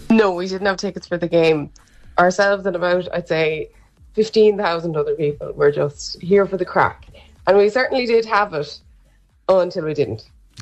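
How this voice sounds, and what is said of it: Hoarse, tired voice. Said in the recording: “I'm a bit hoarse and tired”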